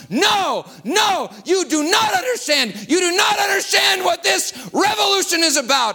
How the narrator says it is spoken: He cried out before the whole crowd

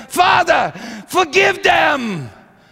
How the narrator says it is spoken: he lifted his head and he cried

